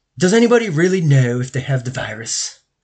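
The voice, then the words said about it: Imitates another person's voice. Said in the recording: “I don't know if that's a good Elon impression”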